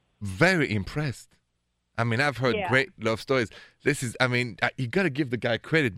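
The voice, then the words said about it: Thick French accent. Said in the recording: “my thick French accent ... with a thick French accent, of course”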